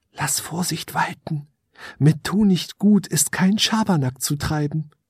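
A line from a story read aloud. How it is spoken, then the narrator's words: Small elf whispering. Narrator (German): Die kleine Elfe flüsterte ihm ins Ohr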